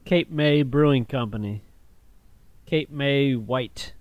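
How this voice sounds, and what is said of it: Usual voice. Nothing is said of it.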